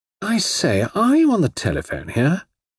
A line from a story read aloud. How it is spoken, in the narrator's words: exclaimed in a perfunctory manner, then blurted out hurriedly